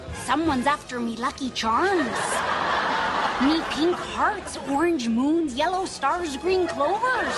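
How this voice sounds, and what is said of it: Put-on Irish accent. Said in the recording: “can I do an Irish accent?”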